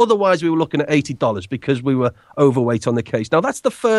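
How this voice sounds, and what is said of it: Usual voice. Nothing is said of it.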